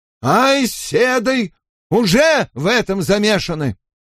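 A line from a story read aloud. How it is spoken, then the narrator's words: Loud. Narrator (Russian): громко заговорил торговец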